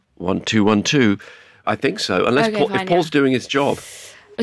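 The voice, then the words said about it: Rough voice after a cold. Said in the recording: “sorry about my voice. I sound terrible. I'm coming off a cold.”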